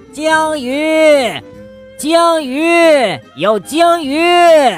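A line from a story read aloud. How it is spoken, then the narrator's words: Shrill shout. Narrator (Chinese): 尖声大叫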